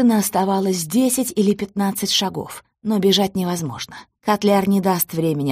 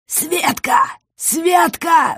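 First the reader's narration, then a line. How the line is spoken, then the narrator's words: Strained, forced out. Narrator (Russian): выдавил он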